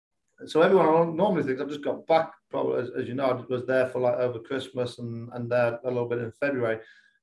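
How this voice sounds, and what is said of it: English accent. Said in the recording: “I haven't lost too much of the English accent ... my accent's normally stronger when I come back”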